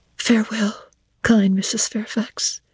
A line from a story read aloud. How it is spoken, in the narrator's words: I whispered